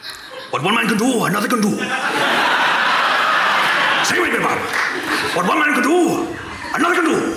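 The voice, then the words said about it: Put-on Welsh accent. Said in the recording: “let's hear your Welsh ... I have to get into character”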